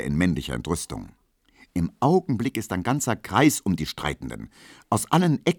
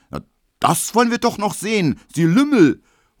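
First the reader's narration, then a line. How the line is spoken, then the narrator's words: Angry flushed shout. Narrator (German): ruft Emil Kubinke, rot wie ein Puter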